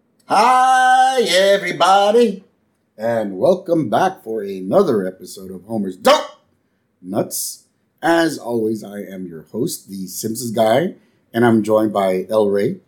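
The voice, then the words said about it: Raspy, sore, slightly cracking voice. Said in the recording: “without my voice cracking ... a little under the weather again, and he's getting his voice back ... It's a little sore still ... He's got a nice rasp to it”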